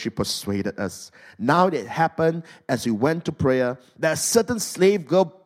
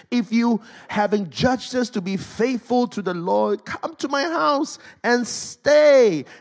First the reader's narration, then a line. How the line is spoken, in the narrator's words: she begged us, saying